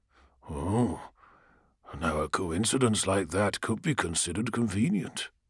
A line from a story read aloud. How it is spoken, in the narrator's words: he said, keeping his voice flat